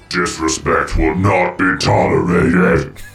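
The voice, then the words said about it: Robotic voice. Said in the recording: “doing the disrespect bot voice ... a robot voice”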